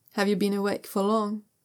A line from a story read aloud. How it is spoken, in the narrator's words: Zha Yunlan asks